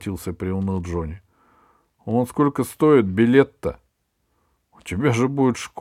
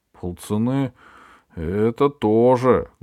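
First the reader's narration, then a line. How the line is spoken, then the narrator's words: Sad. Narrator (Russian): грустно сказал Джонни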